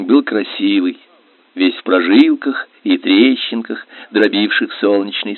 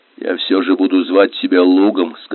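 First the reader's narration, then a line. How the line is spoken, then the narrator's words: Plain. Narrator (Russian): сказал Хельги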